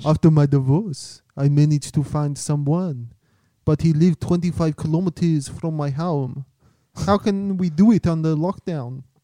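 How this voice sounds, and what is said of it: Put-on French accent, Austrian-sounding. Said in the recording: “Can you do it in a French accent too? ... Got a bit Arnold Schwarzenegger.”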